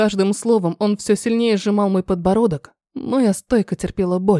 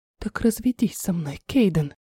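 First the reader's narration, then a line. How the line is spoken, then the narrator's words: Nervous mouthed whisper. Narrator (Russian): шепнула одними губами и тут же во рту пересохло от волнения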